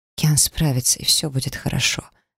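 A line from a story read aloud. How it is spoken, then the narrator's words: Mother's anxious mumble. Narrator (Russian): пробормотала мама, тревожно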